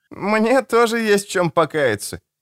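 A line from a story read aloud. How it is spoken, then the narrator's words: Giggling. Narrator (Russian): хихикнул Аль-Гасур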